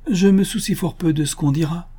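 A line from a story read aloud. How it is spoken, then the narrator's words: Exclaiming, lost in memories. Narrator (French): s'écria Lady Scatcherd, tout entière au souvenir d'autrefois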